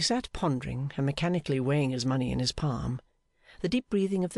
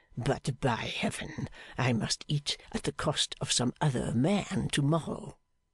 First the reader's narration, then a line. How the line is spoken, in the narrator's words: he muttered to himself